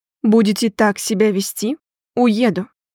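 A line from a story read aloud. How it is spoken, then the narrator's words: Calm statement. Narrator (Russian): Александр спокойно заявил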